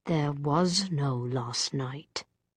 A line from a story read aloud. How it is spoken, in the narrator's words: said through his teeth